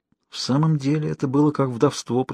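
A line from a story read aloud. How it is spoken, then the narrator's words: Whispering. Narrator (Russian): прошептала Анжела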